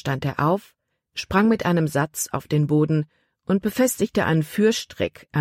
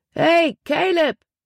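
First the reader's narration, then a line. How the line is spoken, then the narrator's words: Calling out. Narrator (German): rief er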